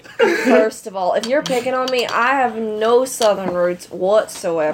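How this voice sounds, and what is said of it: Put-on country accent. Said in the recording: “what the hell are you talking like that for? ... It's a country accent.”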